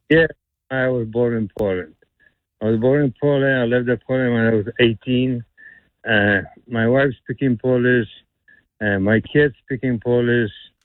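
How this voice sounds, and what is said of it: Polish accent. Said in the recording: “I feel like I'm hearing a Russian accent, or am I wrong? ... So it's a Polish accent I'm hearing? ... Yeah, Polish accent, exactly.”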